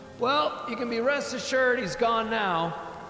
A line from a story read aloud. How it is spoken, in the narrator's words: yelled over the rain